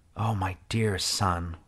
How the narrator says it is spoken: I whispered, as my body involuntarily doubled over and I began to spasm

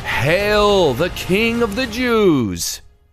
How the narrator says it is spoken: they mocked him, saying

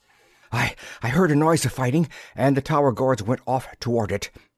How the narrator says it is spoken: gasped the Imlotuan captain

